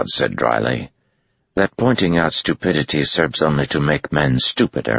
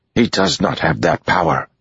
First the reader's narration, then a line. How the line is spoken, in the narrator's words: she said hotly